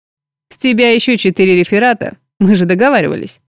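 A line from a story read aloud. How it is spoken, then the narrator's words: Sarcastic man. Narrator (Russian): язвительно напомнил мужчина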